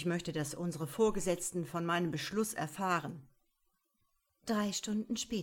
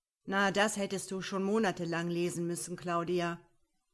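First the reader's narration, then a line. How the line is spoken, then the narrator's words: Curt retort. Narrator (German): setzte der Angesprochene schroff entgegen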